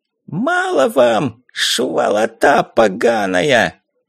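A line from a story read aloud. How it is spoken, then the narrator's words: Shrill, rattling, lisping voice. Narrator (Russian): Визгливый дребезжащий голос, пришепетывая, снова резанул нам уши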